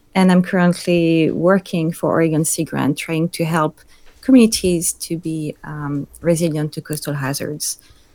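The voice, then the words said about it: French accent. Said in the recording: “people will hear, but I have an accent, which is French”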